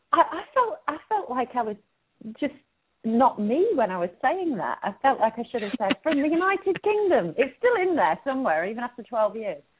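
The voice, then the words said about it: British accent. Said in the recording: “with your beautiful British accent”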